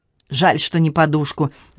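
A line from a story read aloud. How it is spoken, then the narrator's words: Annoyed grumble. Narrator (Russian): с досадой пробурчал Дорозио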